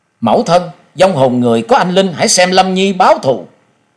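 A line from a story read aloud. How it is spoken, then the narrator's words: Grieving, indignant cry. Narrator (Vietnamese): bì phẫn kêu lên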